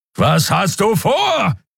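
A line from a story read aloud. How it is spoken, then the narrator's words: Roar. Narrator (German): brüllte Keru wieder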